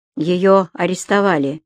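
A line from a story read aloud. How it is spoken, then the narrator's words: Gloomy. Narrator (Russian): мрачно произнес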